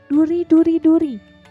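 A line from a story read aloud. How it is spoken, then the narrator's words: Shouting. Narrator (Indonesian): ia berteriak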